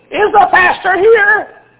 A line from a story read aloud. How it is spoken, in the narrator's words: Had a squeaky voice like that